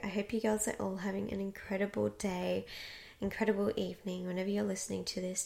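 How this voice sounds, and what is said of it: Strained, fading voice. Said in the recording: “losing my voice”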